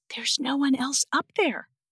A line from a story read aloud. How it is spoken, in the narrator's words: I whispered to Matt